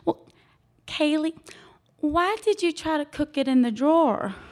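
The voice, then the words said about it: Mild South Carolina Southern accent. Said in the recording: “I'm in South Carolina, so I'll put on the accent a little bit”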